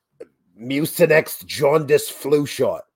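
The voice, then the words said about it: Funny put-on voice. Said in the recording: “in a funny voice”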